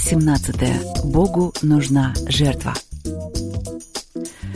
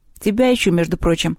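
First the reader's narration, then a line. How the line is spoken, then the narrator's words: Plain. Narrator (Russian): ответил Севка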